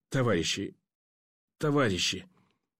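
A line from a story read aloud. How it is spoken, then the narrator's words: Choked, hoarse, eerie rasp. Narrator (Russian): удушливо хрипло и жутко выдавил горлом пленный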